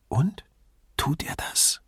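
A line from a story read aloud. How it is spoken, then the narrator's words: Whispering. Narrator (German): flüsterte Grifoni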